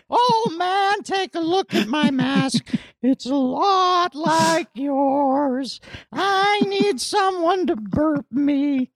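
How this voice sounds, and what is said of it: Imitates another person's singing voice. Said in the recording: “my impression of Biden doing Neil Young”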